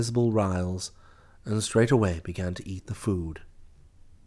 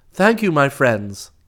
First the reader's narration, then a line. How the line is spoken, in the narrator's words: He called out